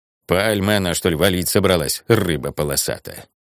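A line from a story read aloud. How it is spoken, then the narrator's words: Muttering. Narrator (Russian): Сойка бормоча по пути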